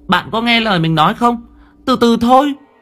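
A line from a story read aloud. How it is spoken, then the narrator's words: Irritated child snapping. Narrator (Vietnamese): Thằng bé liền cáu gắt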